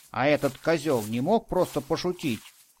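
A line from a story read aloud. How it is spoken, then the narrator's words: Irritated question. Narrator (Russian): раздраженно спросил Радик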